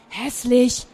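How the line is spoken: Whisper from behind. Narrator (German): flüsterte Frieda von hinten

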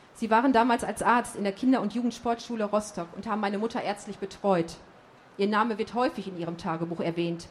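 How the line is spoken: Firm voice. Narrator (German): sagte ich mit fester Stimme

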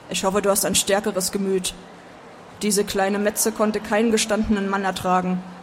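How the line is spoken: Male grunt. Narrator (German): grunzte er

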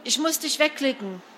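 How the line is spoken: Panicked call into phone. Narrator (German): rief panisch in die Muschel

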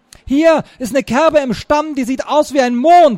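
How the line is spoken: Called out. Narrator (German): rief Lionels bester Freund und Ersatzkapitän Martin Thiel

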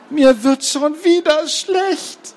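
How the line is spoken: Groaning. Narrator (German): stöhnte Gerti

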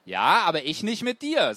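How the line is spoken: Plain. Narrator (German): sagte ich

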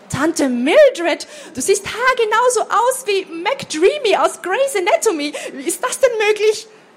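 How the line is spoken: Excited exclamation. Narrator (German): rief Laura begeistert

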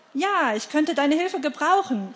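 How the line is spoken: Shouting over roaring water. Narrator (German): rief sie ihm zu, um das Tosen des Wassers zu übertönen

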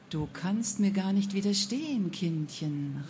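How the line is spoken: Woman murmuring. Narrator (German): raunte die Frau

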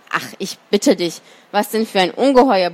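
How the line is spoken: Bear's grumble. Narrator (German): brummte der Bär

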